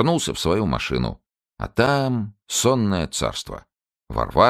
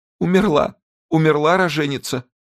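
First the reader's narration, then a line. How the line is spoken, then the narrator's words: Tearful whisper. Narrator (Russian): Зинуля плачет и сквозь слезы шепчет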